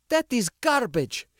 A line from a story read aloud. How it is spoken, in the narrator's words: she spat back